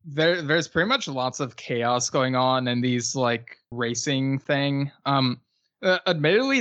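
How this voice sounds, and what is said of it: Usual voice. Nothing is said of it.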